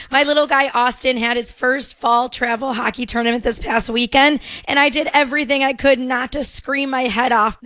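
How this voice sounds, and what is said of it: Hoarse, worn-out voice. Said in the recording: “kind of lost my voice ... my voice is a little exhausted as well”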